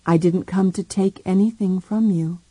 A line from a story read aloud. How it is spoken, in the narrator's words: he said quietly